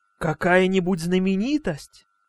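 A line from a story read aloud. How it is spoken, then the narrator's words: Amazed whisper. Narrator (Russian): с изумлением прошептал Крис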